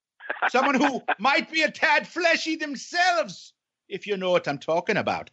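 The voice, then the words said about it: Put-on Irish accent, Conor McGregor. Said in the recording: “a bit of the Irish ... I'm keeping the accent ... I'll be talking like Conor McGregor”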